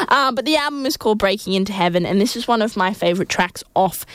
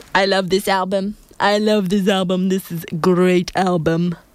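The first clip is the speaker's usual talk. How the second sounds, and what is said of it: Donald Trump impression. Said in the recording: “my Donald Trump impression ... I thought that was pretty spot on”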